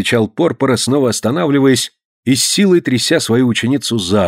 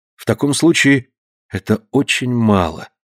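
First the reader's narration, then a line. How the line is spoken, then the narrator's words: Sighing speech. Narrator (Russian): вздохнув, промолвила Консуэла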